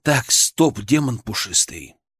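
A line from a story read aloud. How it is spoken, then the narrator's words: Forced calm, suppressed anger. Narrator (Russian): Я постарался, чтобы мой мысленный голос звучал как можно более спокойно, хотя внутри все кипело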